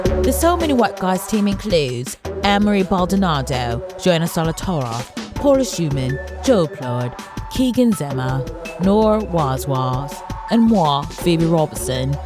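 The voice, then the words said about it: Put-on British accent. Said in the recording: “Should I try to do a British accent the whole way?”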